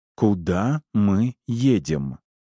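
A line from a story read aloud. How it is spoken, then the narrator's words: Slow repetition. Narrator (Russian): Медленно повторяет Поппи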